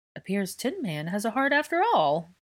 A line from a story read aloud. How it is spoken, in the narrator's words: Angelina laughed at her own joke